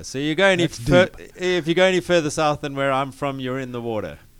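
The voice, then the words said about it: Noticeable non-American English accent. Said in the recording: “We can obviously tell that you might be from Alabama or something. We're not sure, but where are you from with that accent?”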